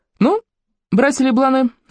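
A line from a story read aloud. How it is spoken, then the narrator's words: Playful voice. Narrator (Russian): игривым голосом произнес Роже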